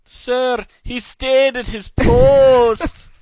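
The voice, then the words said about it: Put-on accent. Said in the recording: “That is a lovely accent.”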